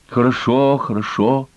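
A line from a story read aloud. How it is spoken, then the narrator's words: Relieved sigh. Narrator (Russian): Оха вздохнула с облегчением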